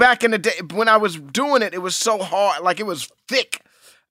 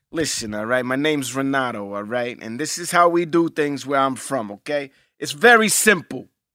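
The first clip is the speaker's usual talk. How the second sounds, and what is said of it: Italian New York accent. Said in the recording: “You do an Italian New York accent, right? ... You want to hear a sample of my Italian accent? ... It's almost like a New York accent, too.”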